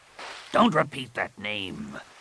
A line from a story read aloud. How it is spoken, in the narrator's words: Rapung snarled